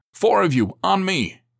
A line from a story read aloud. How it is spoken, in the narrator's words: he barked